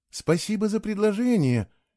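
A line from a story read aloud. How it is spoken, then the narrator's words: Uncertain. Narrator (Russian): неуверенно сказала Элквия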